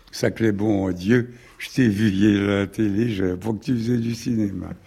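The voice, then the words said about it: Put-on rural Normandy accent. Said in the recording (French): “un gars de la Normandie ... avec l'accent”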